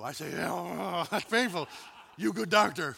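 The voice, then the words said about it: Caveman-like broken speech voice. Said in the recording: “talking like an ape”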